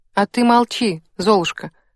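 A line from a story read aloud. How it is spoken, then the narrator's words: Snorting. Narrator (Russian): фыркнула Вика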